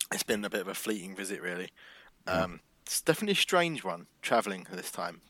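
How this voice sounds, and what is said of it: British Cockney accent. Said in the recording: “I can see your British accent getting better now you're in the UK ... he's sounding more Cockney again”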